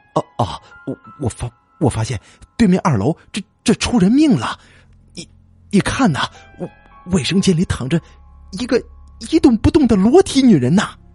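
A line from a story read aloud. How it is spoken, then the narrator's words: Terrified stammering. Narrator (Chinese): 李志东顿时吓得魂飞魄散，结结巴巴的说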